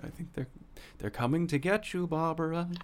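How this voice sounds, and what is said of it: Imitated horror movie character voice. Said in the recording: “that was a good impression. ... That was pretty solid.”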